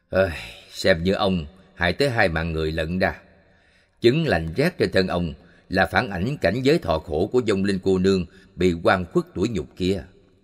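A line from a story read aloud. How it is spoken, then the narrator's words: Sighing. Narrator (Vietnamese): Đại sư thở dài bảo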